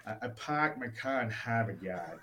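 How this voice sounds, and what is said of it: Attempted Boston accent, nasal. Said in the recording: “I can't do a Boston accent, okay? I try hard, and I end up just sounding nasally.”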